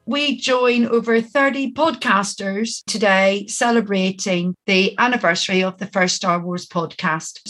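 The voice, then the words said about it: Northern Irish accent. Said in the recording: “my Northern Irish accent”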